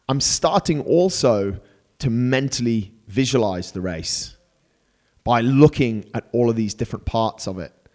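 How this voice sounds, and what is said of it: Excited, energetic voice. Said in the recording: “As you can probably tell by my voice, I'm getting super excited”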